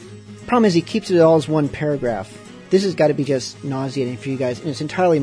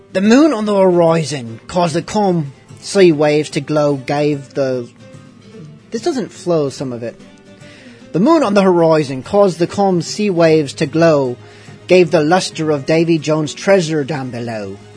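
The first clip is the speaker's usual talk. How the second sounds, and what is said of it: Pirate character voice. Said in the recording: “Putting on my pirate voice.”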